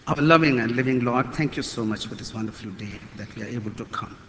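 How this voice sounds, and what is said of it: Non-native English accent. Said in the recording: “my mother tongue is not English, please bear with me for my accent”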